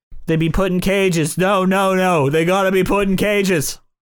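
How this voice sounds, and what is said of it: Donald Trump impression, New York accent. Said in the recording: “I can't do a Trump. See, my Trump eventually becomes Kennedy ... They're kind of the same accent ... Like shitty New Yorker.”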